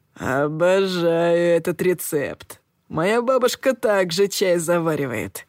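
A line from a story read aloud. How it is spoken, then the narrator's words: Man purring. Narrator (Russian): промурлыкал один из мужчин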